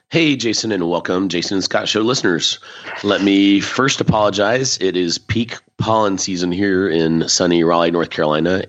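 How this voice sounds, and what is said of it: Low, rough sore-throat voice. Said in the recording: “I have a sore throat. ... the lowness of my voice”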